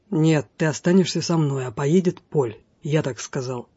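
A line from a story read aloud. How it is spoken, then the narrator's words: Angry hiss. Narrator (Russian): Тьерри, раздувая ноздри, прошипел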